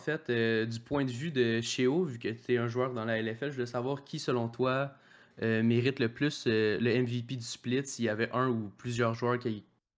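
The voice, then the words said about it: Quebecois French accent. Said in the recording (French): “l'accent québécois”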